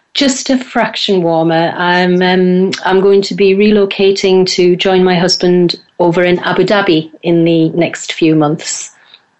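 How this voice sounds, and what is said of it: Northeast English accent. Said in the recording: “you're from the northeast of England... Hence the accent.”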